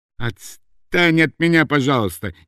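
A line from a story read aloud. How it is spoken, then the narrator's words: Shouted in real anger. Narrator (Russian): не на шутку сердясь, крикнул Шервинский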